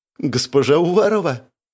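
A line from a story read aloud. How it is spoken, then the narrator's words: Tearful speech. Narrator (Russian): произнесла Кристина сквозь слезы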